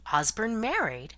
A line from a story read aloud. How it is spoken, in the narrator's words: exclaimed Cynthia